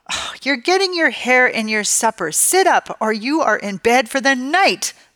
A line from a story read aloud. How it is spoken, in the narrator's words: Mom yells